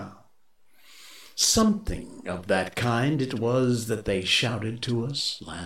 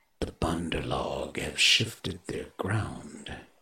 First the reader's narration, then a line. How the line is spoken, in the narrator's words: he said quietly